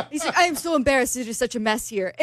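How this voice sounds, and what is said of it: Put-on Argentinian accent. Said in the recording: “Argentinian accent ... I'll stop doing my accent.”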